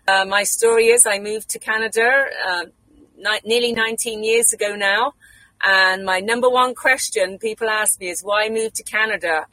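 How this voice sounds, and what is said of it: British English accent. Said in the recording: “I do not have a Canadian accent. I'm actually from England. I'm British.”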